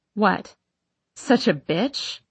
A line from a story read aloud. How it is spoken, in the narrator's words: I laugh as I say it